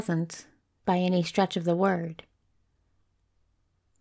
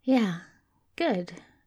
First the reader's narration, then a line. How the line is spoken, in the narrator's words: agreed Crowley slowly